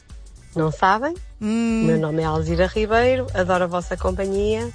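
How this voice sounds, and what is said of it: Northern Portuguese regional accent. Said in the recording (Portuguese): “E já adivinharam qual é o meu sotaque? É do norte ... E o meu sotaque é de Famalicão.”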